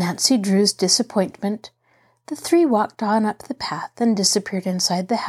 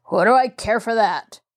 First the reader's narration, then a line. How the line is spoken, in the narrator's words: the man snarled unpleasantly